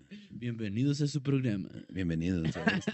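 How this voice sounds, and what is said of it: Radio announcer voice. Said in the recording (Spanish): “quiero hacer una pinche voz de locutor”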